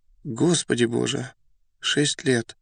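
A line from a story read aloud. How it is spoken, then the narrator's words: Young man's excited whisper. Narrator (Russian): молодой человек с не вполне понятным волнением прошептал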